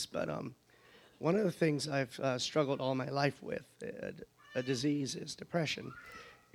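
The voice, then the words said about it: Voice sounds sick, stuffy. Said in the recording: “I have a cold, so forgive me my voice”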